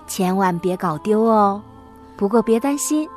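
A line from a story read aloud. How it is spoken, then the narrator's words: Playful joking. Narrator (Chinese): 她开玩笑的对琪琪说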